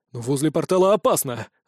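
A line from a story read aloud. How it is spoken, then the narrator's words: Exclamation. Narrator (Russian): воскликнул Вайрон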